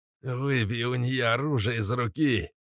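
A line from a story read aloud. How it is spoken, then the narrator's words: Pointy-eared one's hoarse rasp. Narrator (Russian): прохрипел остроушка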